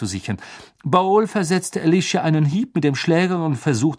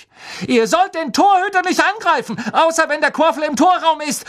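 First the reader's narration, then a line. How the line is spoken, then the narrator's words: Shouting at someone. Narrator (German): schrie sie Bowl und Derrick an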